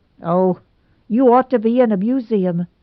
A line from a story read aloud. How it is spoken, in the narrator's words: snapped Nora